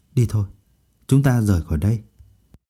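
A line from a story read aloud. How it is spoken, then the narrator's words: Softly spoken. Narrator (Vietnamese): khẽ nói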